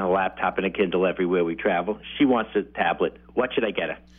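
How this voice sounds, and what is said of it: New York accent. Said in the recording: “New York accent ... I love your accent”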